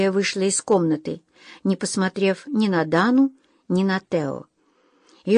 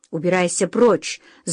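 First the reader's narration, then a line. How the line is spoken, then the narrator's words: Angry. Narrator (Russian): зло проговорила она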